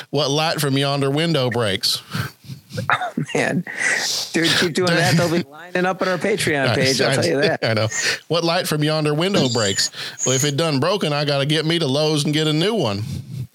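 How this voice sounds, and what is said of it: Put-on Southern accent. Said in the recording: “I'll just try to do them in like a Southern accent”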